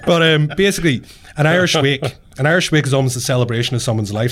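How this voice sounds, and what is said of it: Irish accent. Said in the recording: “It's charming coming out of your accent.”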